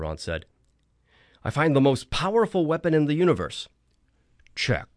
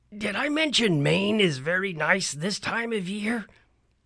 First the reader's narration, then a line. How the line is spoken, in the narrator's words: He asked weakly